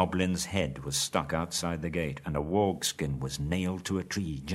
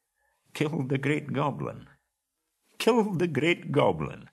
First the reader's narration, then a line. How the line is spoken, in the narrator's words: he chuckled fiercely to himself